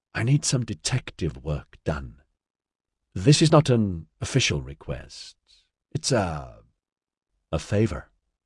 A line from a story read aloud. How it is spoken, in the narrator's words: he supplied gently